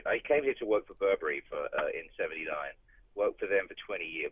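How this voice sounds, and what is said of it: British accent. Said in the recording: “judging by your accent, even though you've been here 30 years, that you probably left the United Kingdom”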